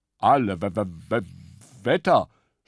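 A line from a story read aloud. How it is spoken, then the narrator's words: Stammering. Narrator (German): stammelte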